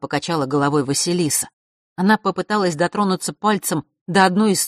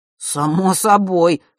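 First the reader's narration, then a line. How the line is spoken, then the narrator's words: Boy's snort. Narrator (Russian): хмыкнул мальчик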